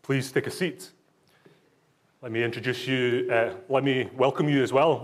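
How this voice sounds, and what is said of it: Scottish accent. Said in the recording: “why is this guy speaking in a different accent? I was born in Glasgow in Scotland, so I'm not just putting this on.”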